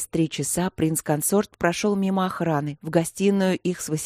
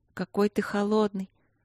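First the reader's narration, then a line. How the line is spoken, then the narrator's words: Sleepy mumble. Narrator (Russian): сонно пробормотала Василина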